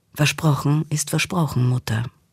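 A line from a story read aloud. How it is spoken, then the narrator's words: Plain. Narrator (German): sagte sie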